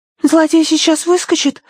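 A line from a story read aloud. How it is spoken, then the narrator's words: Frightened question. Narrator (Russian): испуганно спросила Агнес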